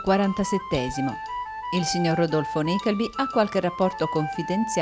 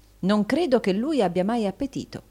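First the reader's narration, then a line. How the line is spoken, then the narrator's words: Plain. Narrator (Italian): disse Newman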